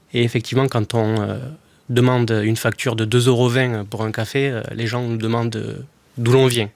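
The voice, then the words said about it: Slight southern French accent. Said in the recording (French): “j'imagine que ça s'entend à la radio, mais j'ai un petit accent ... du sud ... et ensuite de l'Aveyron”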